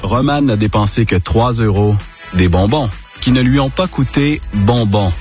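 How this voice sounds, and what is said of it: Québécois French accent. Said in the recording (French): “ce monsieur a l'accent québécois, mais c'est tout à fait charmant”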